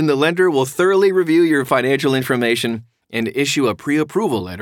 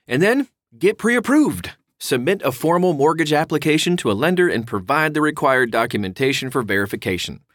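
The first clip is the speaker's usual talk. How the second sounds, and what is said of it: Slight put-on Southern accent. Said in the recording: “I got into a little southern accent there”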